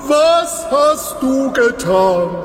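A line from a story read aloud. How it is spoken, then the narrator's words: Shouted at. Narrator (German): schrie Balak ihn an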